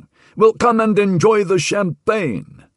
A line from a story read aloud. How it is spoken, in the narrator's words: roared Harvey